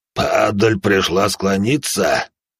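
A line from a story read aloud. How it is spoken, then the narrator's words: Growling. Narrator (Russian): прорычал серебряный Танаан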